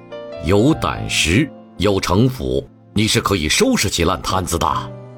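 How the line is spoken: Low voice. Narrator (Chinese): 陆广低声评价着

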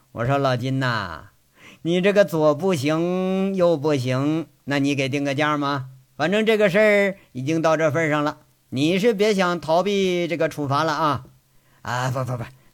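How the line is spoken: Pleased, joking question. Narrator (Chinese): 单所长这回他乐了，有点玩笑的口吻在这问老金

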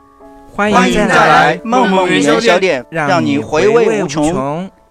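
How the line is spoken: Shouted in unison. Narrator (Chinese): 四只小猪齐声喊道

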